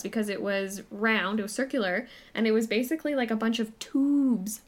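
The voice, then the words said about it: Canadian accent. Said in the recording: “Sound very Canadian there. ... Yeah, that's a Canadian accent.”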